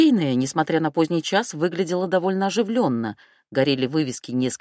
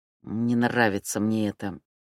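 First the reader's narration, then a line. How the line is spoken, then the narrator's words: Muttering. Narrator (Russian): пробормотал Мишка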